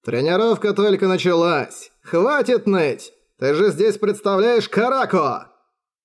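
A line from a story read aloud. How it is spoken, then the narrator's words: Mocking. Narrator (Russian): насмешливо сказал Радон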